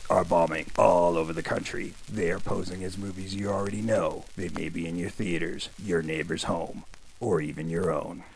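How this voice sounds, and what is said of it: Put-on dramatic announcer voice. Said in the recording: “Why are you doing that voice? ... I thought it made me sound cool.”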